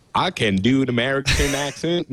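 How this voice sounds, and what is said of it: Put-on Southern American accent. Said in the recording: “Actually, wasn't that bad. ... Breaking out the redneck. ... it was a good choice going southern. Uh, it hides a lot of imperfections.”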